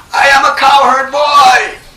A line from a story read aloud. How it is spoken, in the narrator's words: They were roaring